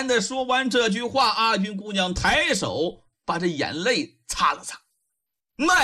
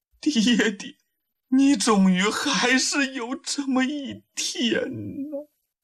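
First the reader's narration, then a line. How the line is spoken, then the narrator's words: Tearful quiet murmur. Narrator (Chinese): 这阿军姑娘没有尖叫，也没有痛哭，泪水静静地顺着面颊淌下来，喃喃自语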